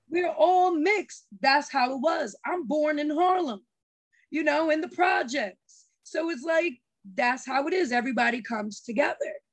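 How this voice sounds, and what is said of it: New York accent. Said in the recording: “I thought I heard the New York accent in you... that sounds like New York”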